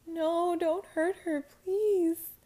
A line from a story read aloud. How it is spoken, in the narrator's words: I screamed